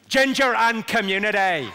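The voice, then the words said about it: Put-on Belfast accent. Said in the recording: “This is the phrase I use to get the Belfast accent right.”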